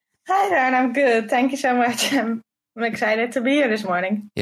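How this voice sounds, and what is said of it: Dutch accent in English. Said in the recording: “You are in the Netherlands? ... that's why I talk with an accent. English is my second language.”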